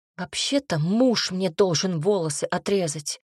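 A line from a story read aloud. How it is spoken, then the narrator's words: Angry. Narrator (Russian): сердито сказала я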